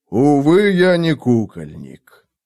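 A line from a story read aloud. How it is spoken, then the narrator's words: Interrupting, heavy sigh. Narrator (Russian): прервал … и тяжело вздохнул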